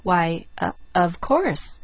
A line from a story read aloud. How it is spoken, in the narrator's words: faltered Miss Polly